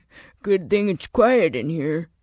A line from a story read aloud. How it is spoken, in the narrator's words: he said, laughing